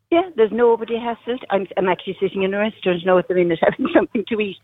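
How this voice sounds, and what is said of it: Cork Irish accent. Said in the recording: “I'm flying to Cork, if you didn't get the accent.”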